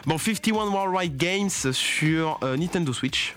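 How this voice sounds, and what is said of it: Exaggerated put-on accent. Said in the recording (French): “avec mon accent de ouf. Mon accent”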